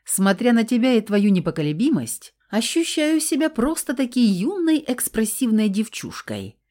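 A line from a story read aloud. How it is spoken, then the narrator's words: Old woman's flirtatious chuckle. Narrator (Russian): кокетливо хохотнула старушка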